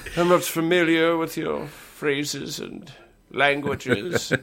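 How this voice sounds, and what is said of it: Tired old British man voice. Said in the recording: “He has like a very tired British accent ... he's like an exhausted old British man”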